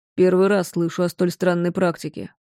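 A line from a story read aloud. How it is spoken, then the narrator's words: Muttered. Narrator (Russian): пробормотал Уинтроп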